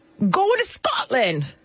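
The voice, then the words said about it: Poor attempt at Scottish accent. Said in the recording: “Is that a Scottish accent?... I don't know what that was... I told her to work on it over the weekend... there was no progress made”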